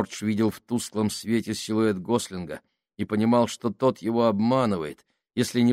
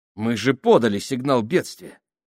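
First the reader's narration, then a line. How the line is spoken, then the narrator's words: Scornful snort. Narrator (Russian): Гослинг фыркнул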